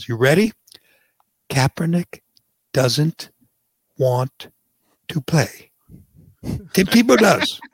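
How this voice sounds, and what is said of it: Deliberately slow speech. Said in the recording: “I'm going to say this slowly.”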